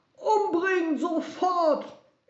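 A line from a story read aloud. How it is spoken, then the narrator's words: Frenzied screaming. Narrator (German): Er schrie so, dass er Schaum vor dem Mund hatte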